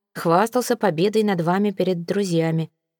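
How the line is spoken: Dry. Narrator (Russian): сухо закончил Виконт

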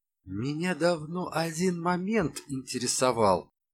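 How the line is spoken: Silky inquiry. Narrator (Russian): шелковым голосом осведомился Калашников

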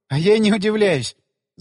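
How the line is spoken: Laughing. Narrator (Russian): засмеялась она

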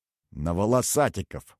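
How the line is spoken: Snorting. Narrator (Russian): хмыкнул барон Сдучек

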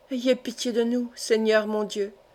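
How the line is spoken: Murmured prayer. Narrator (French): murmurait-elle

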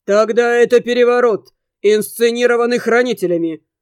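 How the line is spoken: Father's loud clear reply. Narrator (Russian): ответ отца прозвучал громко и четко

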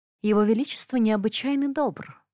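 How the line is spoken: Purring. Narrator (Russian): мурлыкнула

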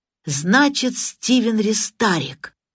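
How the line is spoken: Joyful exclamation. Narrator (Russian): радостно воскликнул сержант Лейк

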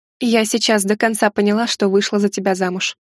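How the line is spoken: Plain. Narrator (Russian): ответила я

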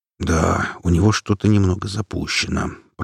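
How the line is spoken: Muttered. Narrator (Russian): пробормотал Макс

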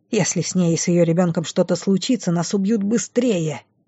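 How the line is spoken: Growled. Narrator (Russian): Рыкнула она на напарницу

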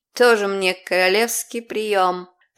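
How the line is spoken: Grumbling. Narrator (Russian): проворчала Эвон

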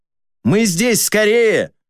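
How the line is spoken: Shouting. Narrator (Russian): крикнул

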